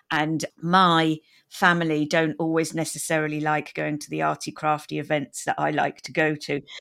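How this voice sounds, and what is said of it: British accent. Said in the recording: “I have a British accent.”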